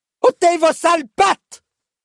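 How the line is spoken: Extremely loud roar. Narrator (French): rugit un timbre extraordinairement sonore

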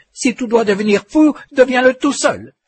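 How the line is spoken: Exclaimed. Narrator (French): s'écria-t-elle

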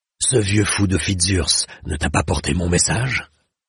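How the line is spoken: Growled. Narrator (French): gronda Ganelon

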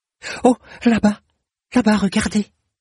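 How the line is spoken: Exclaimed. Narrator (French): s'exclama-t-elle

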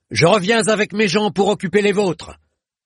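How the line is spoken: Shouted. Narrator (French): cria-t-il

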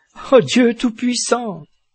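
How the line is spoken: Exclaiming. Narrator (French): s'écria-t-elle

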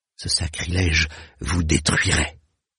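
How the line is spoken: Whispering. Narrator (French): souffla-t-elle

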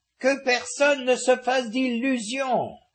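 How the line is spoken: Shouting to be heard. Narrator (French): cria-t-elle pour être entendue de Fernanda

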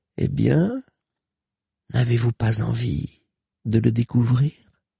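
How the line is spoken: Murmur. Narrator (French): murmura-t-elle

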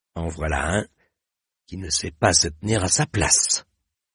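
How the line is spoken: Muttering. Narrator (French): marmonna-t-il

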